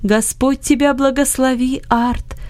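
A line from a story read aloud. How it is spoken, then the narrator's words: Joyful voice. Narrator (Russian): сказал Иосиф радостным голосом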